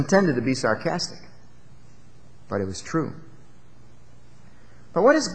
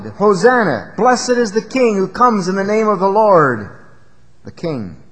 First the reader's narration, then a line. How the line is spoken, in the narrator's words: the multitude shouted